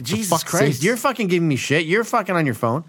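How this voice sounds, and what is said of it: Yelling loudly into the mic. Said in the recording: “sorry I'm yelling. ... Stop fucking screaming into the mic.”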